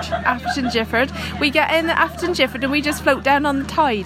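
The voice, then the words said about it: Imitated local regional accent. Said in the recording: “Is that offensive to do the accent? I love it, by the way. I love the accent.”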